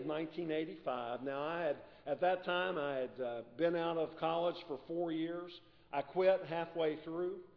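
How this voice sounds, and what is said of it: West Virginia accent. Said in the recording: “a little different accent from me... I'm originally from West Virginia”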